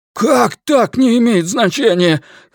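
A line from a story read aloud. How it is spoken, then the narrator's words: Almost shouting. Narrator (Russian): Ллойд почти кричал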